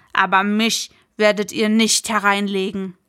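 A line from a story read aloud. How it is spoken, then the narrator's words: Called out, tanner. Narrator (German): rief der Gerber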